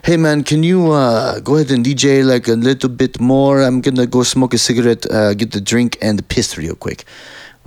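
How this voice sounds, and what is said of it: Put-on character accent. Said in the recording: “there's my accent, by the way. I'm in character.”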